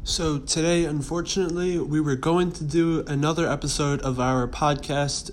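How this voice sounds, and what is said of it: Strained voice from a cold. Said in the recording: “My voice isn't too good. My throat's recovering from a little cold.”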